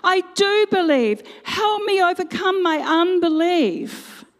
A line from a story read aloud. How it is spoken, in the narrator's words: the boy's father exclaimed